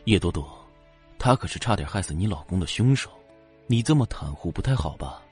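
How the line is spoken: Soft voice. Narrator (Chinese): 他轻声……道

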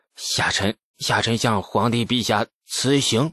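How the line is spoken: Through gritted teeth. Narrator (Chinese): 吐蕃使者咬牙

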